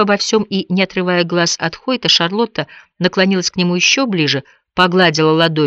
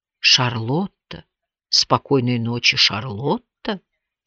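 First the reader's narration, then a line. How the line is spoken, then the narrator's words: Tender, heartfelt. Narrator (Russian): Он впервые назвал ее по имени с чувством, и прозвучало это так же нежно, как и его поцелуй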